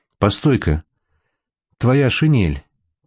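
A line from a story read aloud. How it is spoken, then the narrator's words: Whisper. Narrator (Russian): прошептал Шутиков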